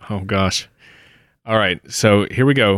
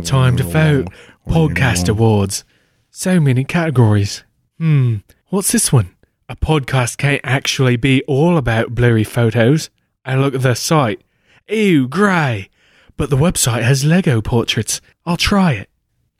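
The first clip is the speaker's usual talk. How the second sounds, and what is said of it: Sultry put-on Australian accent. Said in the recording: “I've got to read this in a fine, sultry Australian accent.”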